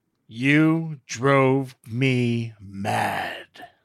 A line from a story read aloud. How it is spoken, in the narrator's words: he growled